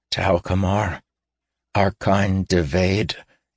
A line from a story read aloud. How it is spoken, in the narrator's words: Caden said calmly